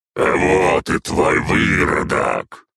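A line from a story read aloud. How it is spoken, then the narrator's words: Growling. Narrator (Russian): прорычал он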